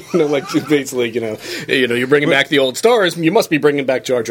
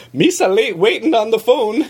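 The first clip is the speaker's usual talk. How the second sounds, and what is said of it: Jar Jar Binks impression. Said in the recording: “doing a Jar Jar Binks impression ... That was your Jar Jar Binks accent.”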